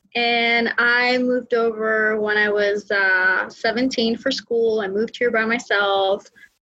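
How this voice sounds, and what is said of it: Greek accent. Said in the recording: “So I'm from Greece, in case you can't hear my accent.”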